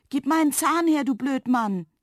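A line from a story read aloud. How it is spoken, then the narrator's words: Angry shout, female. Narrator (German): rief sie wütend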